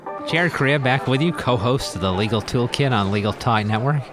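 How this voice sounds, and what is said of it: Put-on radio announcer voice. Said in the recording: “This is my radio voice.”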